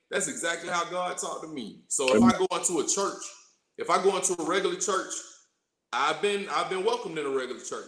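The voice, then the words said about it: Southern drawl with a twang. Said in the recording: “I'm from College Park. I was raised in College Park, Georgia. So you hear the drawl in my voice, you hear the twang.”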